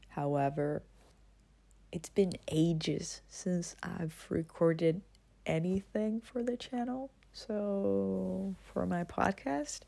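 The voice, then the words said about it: Hoarse, sore-throat voice. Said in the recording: “I have a sore throat, so my voice may sound weird.”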